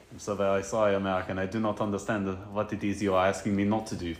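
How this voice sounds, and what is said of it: Put-on German accent. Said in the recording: “a German cat ... I know you want to do that accent”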